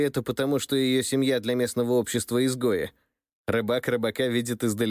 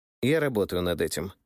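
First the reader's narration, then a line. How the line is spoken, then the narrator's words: Snorting reply. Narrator (Russian): хмыкнул я в ответ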